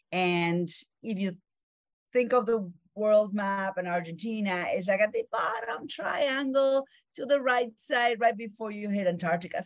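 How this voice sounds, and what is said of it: Argentine accent. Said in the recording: “I grew up in Argentina ... That's where my accent is from.”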